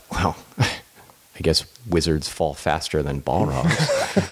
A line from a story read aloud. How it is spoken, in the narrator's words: Aaron mutters underneath his breath